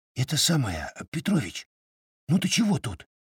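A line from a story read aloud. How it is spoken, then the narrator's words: Whisper. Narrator (Russian): прошептал Толя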